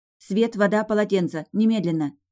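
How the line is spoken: Sharp. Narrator (Russian): резко повторила я

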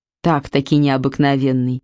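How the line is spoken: Skeptical snort. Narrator (Russian): хмыкнул Игнат

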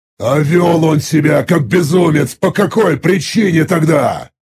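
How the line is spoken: Displeased growl. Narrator (Russian): Недовольно прорычал я

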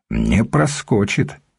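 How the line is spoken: Calm reply. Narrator (Russian): спокойно ответил Рерих

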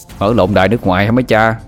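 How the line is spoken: Static-crackled scoffing laugh. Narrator (Vietnamese): tiếng rè, xin cười khẩy

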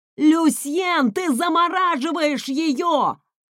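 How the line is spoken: Shouted. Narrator (Russian): закричал Райф

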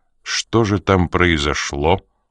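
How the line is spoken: Dry. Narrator (Russian): сухо повторил Коридон

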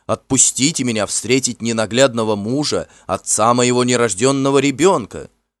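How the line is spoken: Shouted. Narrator (Russian): Она крикнула

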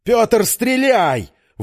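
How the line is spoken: Shouted. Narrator (Russian): выкрикнул Завьялов

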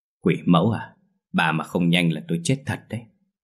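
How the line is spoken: Muttering. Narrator (Vietnamese): Lão Hậu lẩm bẩm

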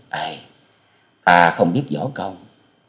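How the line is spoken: Sighing. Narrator (Vietnamese): Tư Đồ Hồng thở dài nói

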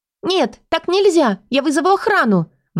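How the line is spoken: Exclaiming. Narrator (Russian): воскликнула Ири

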